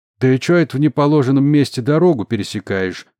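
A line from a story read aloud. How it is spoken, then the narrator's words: Loud question. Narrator (Russian): громко спросил сержант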